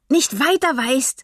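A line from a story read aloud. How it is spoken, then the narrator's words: Loud, unhesitating. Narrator (German): ergänzte Mirabelle laut und ohne zu zögern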